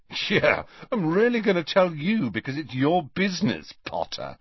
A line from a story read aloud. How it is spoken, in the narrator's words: sneered Malfoy